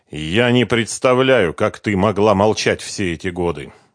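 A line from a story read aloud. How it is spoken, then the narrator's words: Sighing. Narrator (Russian): вздохнул Давид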